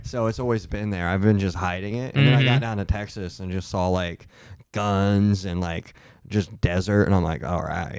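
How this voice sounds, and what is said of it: Slight Texas twang. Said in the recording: “You got a little bit of a... of that Texas draw, that Texas twang.”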